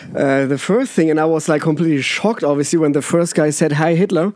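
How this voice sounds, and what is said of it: German accent. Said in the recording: “It's my German accent”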